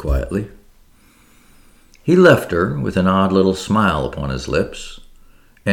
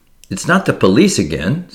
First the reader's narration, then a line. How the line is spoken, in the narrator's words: said Marie anxiously